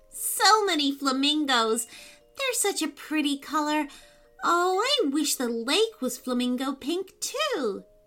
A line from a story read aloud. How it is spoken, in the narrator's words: she sighed